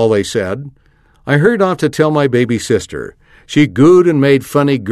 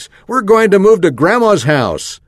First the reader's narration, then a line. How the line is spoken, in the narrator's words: yelled at the top of my lungs